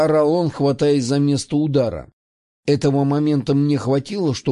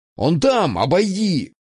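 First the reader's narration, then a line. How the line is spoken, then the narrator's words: Distant shouting voices. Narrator (Russian): кричали за забором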